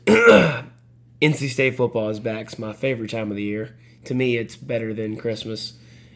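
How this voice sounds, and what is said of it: Strained, worn-out voice. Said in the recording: “My voice is not all there right now... It's pretty obvious... yelling”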